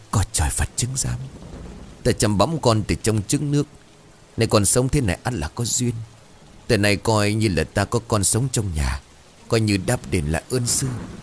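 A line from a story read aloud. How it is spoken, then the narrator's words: Muttered prayer. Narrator (Vietnamese): Ông Khán bây giờ lẩm bẩm khấn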